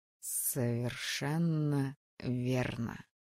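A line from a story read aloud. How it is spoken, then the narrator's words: Male voice, slight hiss. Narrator (Russian): ответил мужской голос, почти неуловимо срываясь на шипение в начале слов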